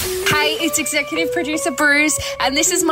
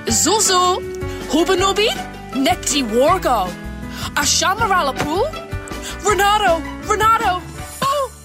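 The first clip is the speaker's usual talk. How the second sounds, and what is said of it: Sims character gibberish voice. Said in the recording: “my impression of me as a character on The Sims, telling you I'm bored and need to pee”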